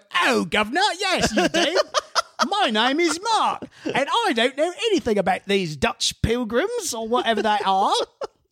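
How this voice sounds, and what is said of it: Put-on English accent. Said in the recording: “Did I just hear an English accent? ... That's exactly how Mary Read sounded.”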